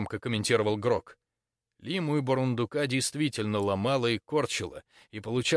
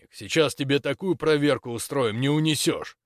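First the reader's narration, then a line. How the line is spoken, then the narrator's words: Snapping back. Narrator (Russian): Цапля огрызнулся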